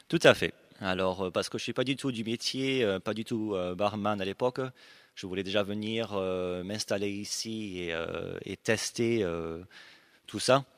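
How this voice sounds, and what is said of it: Slight Australian and Aveyron accent. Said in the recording (French): “il a un petit accent parce qu'il est un peu australien, un peu aveyronnais”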